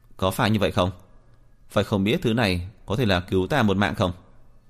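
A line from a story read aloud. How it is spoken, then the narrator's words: Faint dry laugh. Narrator (Vietnamese): Diệp Phiến cười nhạt một tiếng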